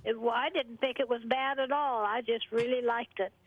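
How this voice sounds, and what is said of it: Southern US accent. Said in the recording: “you sound like you're from the South ... I picked up some of the accent because I lived in Missouri for a while”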